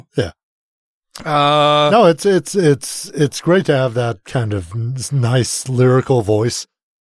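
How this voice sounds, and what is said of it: Congested, slightly strained voice. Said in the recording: “I'm kind of in this like perpetual post-nasal drip kind of voice... A little strained.”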